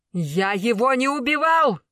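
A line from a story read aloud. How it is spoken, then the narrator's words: Shout. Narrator (Russian): закричал Тигран Таранян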